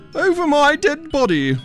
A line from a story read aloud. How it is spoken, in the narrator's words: roared the fearless knight